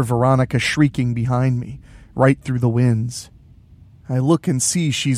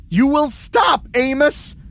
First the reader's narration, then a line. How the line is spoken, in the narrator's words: Veronica's voice sounds like a real high-pitched shriek now